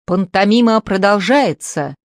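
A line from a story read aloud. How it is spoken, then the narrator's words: Loud shout over another. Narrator (Russian): Самарин, заглушая Пепса, прокричал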